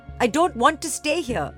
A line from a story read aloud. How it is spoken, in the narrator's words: she cried out